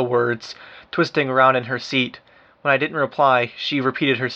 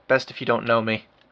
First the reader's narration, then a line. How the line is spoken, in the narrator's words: I murmured